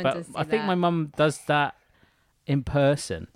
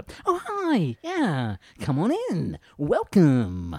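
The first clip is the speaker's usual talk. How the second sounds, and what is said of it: Imitates mother's posh phone voice. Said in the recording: “the phone voice ... she's got the phone voice”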